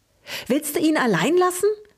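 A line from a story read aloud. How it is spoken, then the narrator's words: Excited squeak. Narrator (German): fiebte Luke aufgeregt, der als erster seine Sprache wiedergefunden hatte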